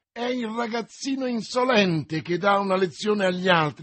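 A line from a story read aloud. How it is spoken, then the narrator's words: Exclamation. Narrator (Italian): esclamò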